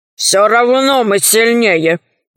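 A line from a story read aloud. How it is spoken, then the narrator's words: Sorcerer's grumble. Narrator (Russian): проворчал колдун в шкурах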